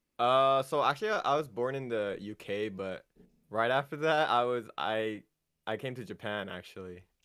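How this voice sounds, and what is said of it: American accent. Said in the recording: “It does sound like you have an American accent.”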